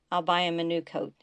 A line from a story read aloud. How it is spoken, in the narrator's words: he said